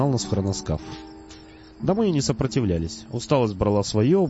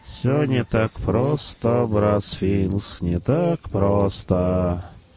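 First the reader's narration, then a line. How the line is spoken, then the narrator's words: Sad muttering. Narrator (Russian): бормотал он печально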